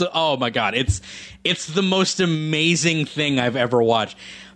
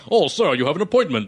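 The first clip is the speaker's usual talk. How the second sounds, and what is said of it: Put-on British butler accent. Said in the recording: “with, like, a British accent that's like”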